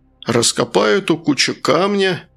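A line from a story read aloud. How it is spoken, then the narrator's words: Chuckling. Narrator (Russian): барон хохотнул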